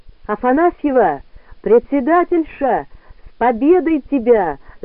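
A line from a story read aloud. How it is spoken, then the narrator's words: Yelling. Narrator (Russian): заорала она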